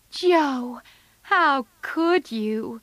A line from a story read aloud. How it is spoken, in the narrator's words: cried Meg